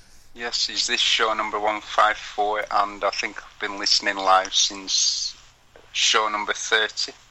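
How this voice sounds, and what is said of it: Non-American accent. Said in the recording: “I think a lot of people probably can tell by your accent”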